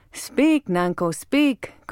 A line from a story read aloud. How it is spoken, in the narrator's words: cried many voices